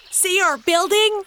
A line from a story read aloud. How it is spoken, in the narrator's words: shouted Benny